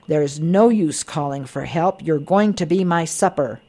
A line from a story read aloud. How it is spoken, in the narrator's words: The dragon was roaring